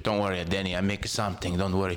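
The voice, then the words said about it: Imitated accent of a parent. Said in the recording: “the accents. I've been listening to that accent my entire life, and I've been kind of imitating. ... You got it down.”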